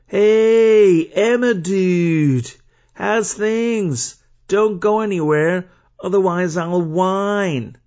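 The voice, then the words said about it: Bad put-on American surfer-dude accent. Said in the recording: “his voice is like a surfer dude ... my terrible American accent”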